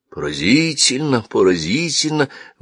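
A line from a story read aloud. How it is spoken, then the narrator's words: Exclaimed. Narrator (Russian): воскликнул мулла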